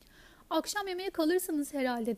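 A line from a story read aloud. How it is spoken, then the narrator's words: Plain. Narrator (Turkish): dedi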